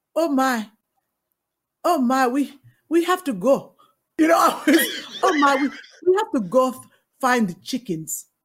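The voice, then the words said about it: Put-on accent, not very good. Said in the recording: “How did you do your accent for that audition? ... I probably did it like not as good as yours”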